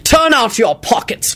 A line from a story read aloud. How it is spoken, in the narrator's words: Quentin bellowed, and he sounded so thunderously Snape-like